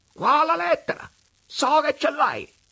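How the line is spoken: Sudden shout, changed tone. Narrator (Italian): all'improvviso, cambiando aria e tono, gli gridò

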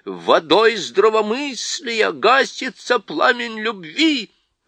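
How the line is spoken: Wild roar. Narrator (Russian): Принц дико взревел

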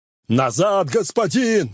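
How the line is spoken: Shouted warning. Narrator (Russian): закричал Гуга

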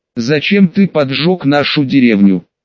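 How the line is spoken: Plain. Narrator (Russian): спросил второй

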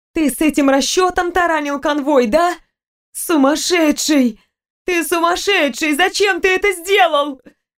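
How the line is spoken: Breathless shout. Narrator (Russian): Задыхаясь, выкрикнула Виктория

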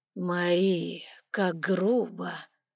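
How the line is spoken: Drawling with a smile. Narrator (Russian): протянул Алан, одновременно улыбаясь

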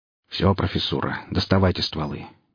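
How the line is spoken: Quiet. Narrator (Russian): негромко проговорил он

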